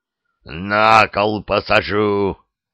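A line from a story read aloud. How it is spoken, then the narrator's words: Governor's roar. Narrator (Russian): проревел наместник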